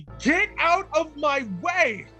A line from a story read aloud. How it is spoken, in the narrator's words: yelled loudly